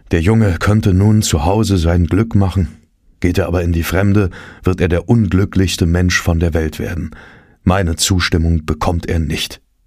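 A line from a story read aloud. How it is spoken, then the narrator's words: Dismayed sighing. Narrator (German): Er war davon sehr betroffen gewesen und hatte seufzend geäußert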